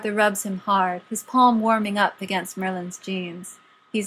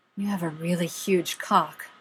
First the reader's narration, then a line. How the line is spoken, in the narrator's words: Arthur says breathlessly, delighted